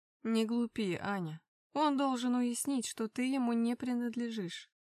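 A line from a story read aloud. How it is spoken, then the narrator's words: Gloomy. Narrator (Russian): мрачно произнес Вишневский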